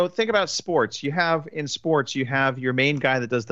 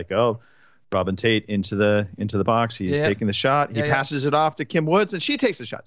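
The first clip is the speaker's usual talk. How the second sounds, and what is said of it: Sports play-by-play announcer impression. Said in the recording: “brilliant impression ... the play-by-play ... That's the announcer guy.”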